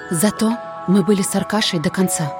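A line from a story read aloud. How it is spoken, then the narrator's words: Repeated whisper. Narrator (Russian): прошептала в который раз мама Люся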